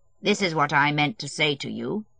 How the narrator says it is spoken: he went on coldly and composedly

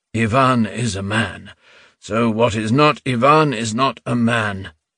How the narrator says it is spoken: muttered Reuben

